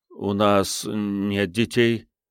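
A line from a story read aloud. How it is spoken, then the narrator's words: Trembling voice. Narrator (Russian): сказал Джереми дрожащим голосом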